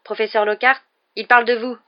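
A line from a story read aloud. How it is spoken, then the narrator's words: Dry, curt. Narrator (French): dit sèchement Ron à Lockhart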